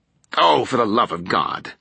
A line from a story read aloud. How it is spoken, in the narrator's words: Nora exclaimed with a hostile groan